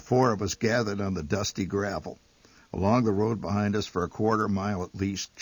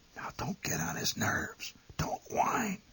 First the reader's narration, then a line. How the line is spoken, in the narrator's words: My mother whispered